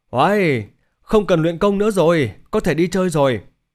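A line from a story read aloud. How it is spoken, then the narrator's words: Excited exclamation. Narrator (Vietnamese): Thành Vũ hưng phấn kêu lên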